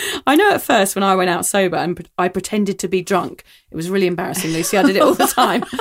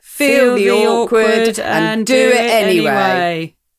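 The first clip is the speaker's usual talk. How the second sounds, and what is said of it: Flat monotone robot voice. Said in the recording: “my monotone voice ... I was doing like a robot voice”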